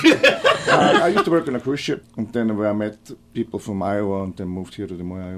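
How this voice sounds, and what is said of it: Foreign accent. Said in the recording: “Your accent, help me place it.”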